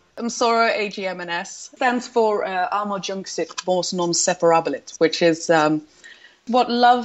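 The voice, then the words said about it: British accent. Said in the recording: “she has a great British accent.”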